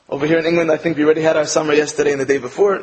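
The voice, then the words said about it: American accent. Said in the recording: “I'm from America, as you can tell from my accent”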